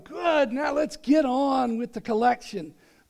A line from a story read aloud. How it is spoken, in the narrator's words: The man shouted in the back row